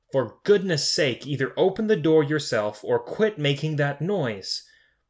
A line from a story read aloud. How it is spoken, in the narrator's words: She yelled